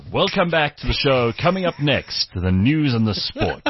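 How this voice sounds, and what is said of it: Cheesy radio DJ voice. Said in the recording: “my radio voice was shit ... You sound like most radio DJs.”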